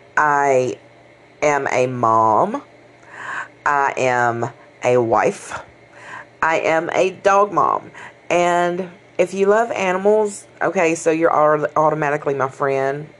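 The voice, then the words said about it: Southern country Mississippi accent. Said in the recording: “I live in Mississippi, born and raised here... never out of the South. You can probably tell by my wonderful little countryfied accent.”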